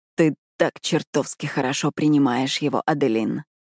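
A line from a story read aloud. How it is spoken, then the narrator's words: Purring devilish whisper. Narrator (Russian): мурлычет он мне в ухо своим дьявольским шепотом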